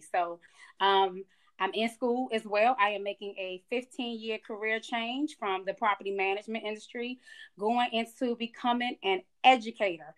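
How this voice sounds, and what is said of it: Slight Southern Georgia twang. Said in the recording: “I'm picking up on your accent ... You got that Georgia twang now ... I picked up this little Georgia twang”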